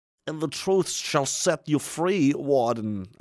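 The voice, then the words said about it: Weird voice, Andy Dufresne line. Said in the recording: “I had to say it in a weird voice ... Andy Dufresne”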